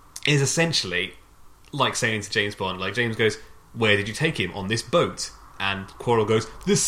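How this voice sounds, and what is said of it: Usual voice. Nothing is said of it.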